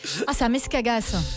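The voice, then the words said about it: Southern French accent. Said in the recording (French): “retrouve un accent du sud, ce qui est particulier pour une bretonne”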